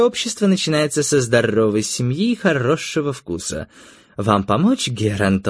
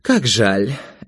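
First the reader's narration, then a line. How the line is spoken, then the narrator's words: Sighing. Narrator (Russian): Этта вздохнула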